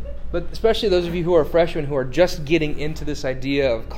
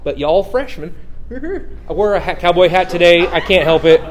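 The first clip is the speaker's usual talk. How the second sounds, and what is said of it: Put-on Southern American accent. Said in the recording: “talk with a southern accent”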